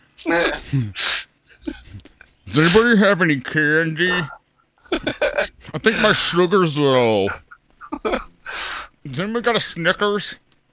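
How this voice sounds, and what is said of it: Weird creepy voice. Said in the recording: “that weird fucking creepy voice”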